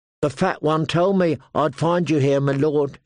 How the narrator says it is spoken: she said

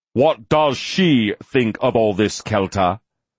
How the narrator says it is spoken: Lucan called after him, making his voice loud enough to carry clearly to her ears as well

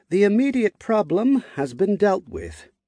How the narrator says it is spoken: Asnod said solemnly

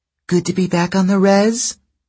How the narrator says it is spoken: one asked in a sweet voice

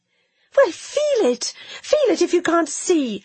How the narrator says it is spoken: she cried

